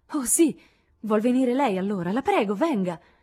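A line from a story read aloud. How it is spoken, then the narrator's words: Exclaimed. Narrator (Italian): esclamò Lori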